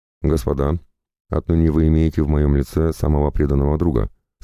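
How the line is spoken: Plain, king. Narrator (Russian): сказал им король

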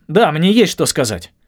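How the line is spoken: Breathless, halting, nervous. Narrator (Russian): от волнения начал задыхаться и говорил сбивчиво, будто убегал от своры собак

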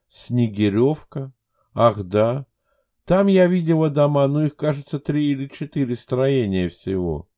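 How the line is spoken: Uncertain speech. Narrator (Russian): неуверенно произнесла Оля

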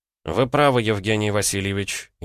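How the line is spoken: Sighing. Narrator (Russian): я вздохнул

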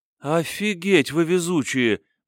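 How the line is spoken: Drawn-out exclamation. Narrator (Russian): протянула Акеми

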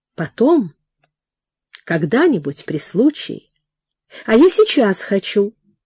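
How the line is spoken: Thoughtful. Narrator (Russian): Прохор задумчиво сказал

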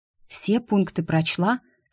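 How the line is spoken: Whispered question. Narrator (Russian): спросила я девушку шепотом

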